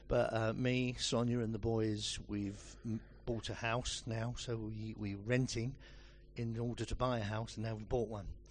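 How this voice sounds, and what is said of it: Essex English accent. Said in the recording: “we're Essex people. You can tell by the accent straight away.”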